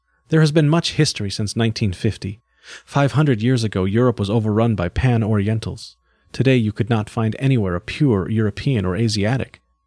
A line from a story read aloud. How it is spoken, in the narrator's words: She merely laughed and said